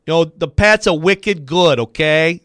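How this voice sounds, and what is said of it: Poor put-on Boston accent. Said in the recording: “Now my Boston is just garbage”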